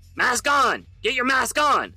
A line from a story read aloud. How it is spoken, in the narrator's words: Alpha shouted back